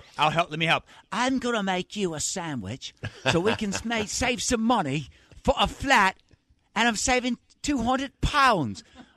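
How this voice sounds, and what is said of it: Put-on British accent. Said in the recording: “I had to add the British accent”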